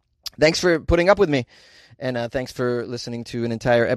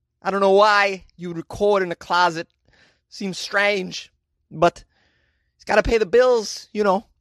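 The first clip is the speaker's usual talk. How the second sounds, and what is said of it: Terrible put-on accent impression. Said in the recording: “That definitely denigrated into a terrible walk-in accent at the end. Impression, I should say.”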